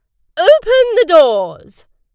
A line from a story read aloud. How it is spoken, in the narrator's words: shouted a loud voice